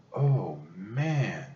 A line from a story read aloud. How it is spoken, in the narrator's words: he said softly